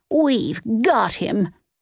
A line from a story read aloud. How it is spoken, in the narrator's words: Nance cried